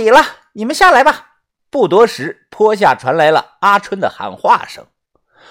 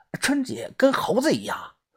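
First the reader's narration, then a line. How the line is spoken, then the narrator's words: Whisper. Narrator (Chinese): 豆芽仔跟我小声的说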